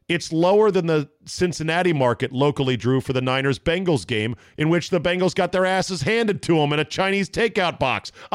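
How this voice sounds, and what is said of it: Yelling, loud agitated speech. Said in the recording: “I'm not yelling, am I? I'm yelling. I know that. Sorry.”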